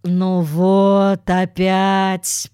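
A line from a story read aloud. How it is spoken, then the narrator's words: Groaning. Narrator (Russian): простонала Джуди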